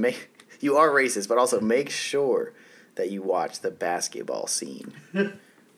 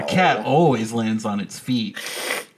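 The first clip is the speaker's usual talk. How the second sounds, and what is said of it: Impression of a movie character. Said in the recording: “That was my impression of Catwoman.”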